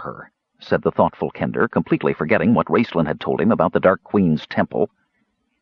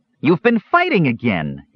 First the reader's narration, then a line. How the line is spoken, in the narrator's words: Earwig cried, stamping his foot